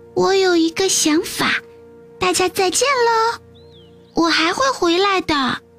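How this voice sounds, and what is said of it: Tiny little voice. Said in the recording (Chinese): “有个小小的声音说”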